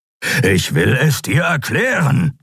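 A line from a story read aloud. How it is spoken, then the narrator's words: Growling. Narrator (German): knurrte Keru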